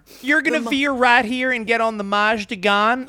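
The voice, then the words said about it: Imitated southern accent. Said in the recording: “Her and her little southern accent”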